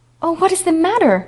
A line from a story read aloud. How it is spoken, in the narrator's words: she cried anxiously